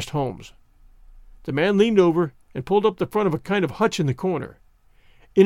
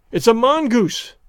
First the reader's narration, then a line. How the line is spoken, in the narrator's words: I cried